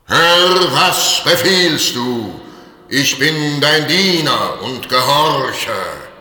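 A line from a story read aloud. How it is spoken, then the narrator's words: Thunderous spirit voice. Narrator (German): der Geist und rief mit Donnerstimme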